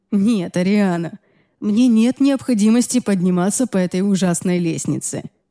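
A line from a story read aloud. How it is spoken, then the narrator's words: Chuckling. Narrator (Russian): хохотнул он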